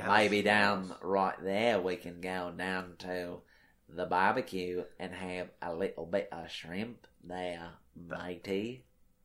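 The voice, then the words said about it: Put-on Australian accent. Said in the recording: “do you have a good Australian accent?”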